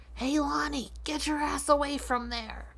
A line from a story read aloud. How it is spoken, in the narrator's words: Loomis creepily whispering from behind a bush